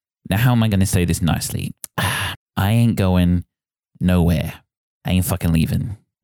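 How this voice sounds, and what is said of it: Boston accent. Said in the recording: “That a bit of Boston accent.”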